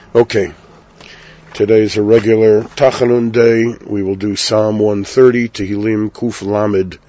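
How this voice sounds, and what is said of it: Hoarse voice. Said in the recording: “excuse, please, my hoarseness. I have a cough ... little bit of a sore throat”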